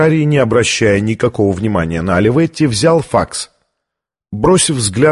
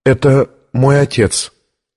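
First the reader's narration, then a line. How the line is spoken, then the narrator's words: Trembling voice. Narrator (Russian): ответила дрожащим голосом Виктория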